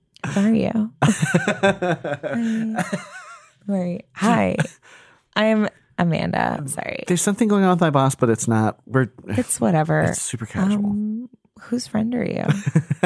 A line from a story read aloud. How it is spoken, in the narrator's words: Alex asked in a shy voice